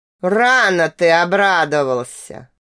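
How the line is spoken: Deep monstrous growl. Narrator (Russian): Утробно прорычал антрацитовый монстр

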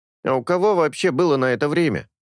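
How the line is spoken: Snorted. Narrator (Russian): хмыкнул Сорин

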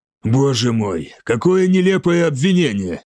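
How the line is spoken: Forced out. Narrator (Russian): выдавил

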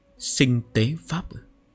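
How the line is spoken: Soft, doubtful. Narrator (Vietnamese): Lý Hạng Bình nghi ngờ, khẽ nói

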